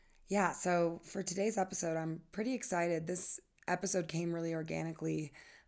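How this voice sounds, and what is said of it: Slightly hoarse voice. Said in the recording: “I'm coming down from a pretty terrible cough. So there's a bit of a hoarseness in my voice.”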